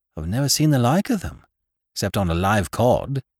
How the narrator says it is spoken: said Captain Gannington, in an extremely puzzled voice

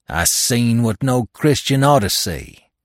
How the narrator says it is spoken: he fairly snarled in my face as he growled

